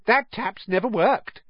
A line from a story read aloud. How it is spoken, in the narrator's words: said Myrtle brightly